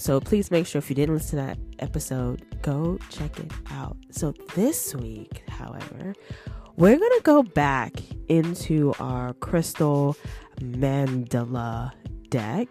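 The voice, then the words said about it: Slightly congested voice. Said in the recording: “I'm kind of still congested just a little. I'm sure you probably hear it in my voice”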